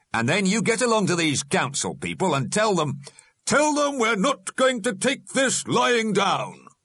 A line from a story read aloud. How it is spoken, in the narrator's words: shouted the alderman